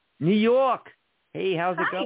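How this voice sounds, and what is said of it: Put-on New Jersey accent. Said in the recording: “I was trying to do New York accent, and I was actually doing New Jersey.”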